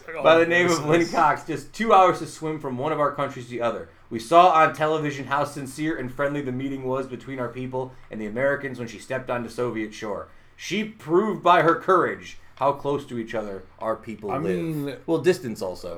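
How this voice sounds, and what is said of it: Impression of Gorbachev. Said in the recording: “Can I do his voice still? ... Can I do his voice? ... I just liked that voice.”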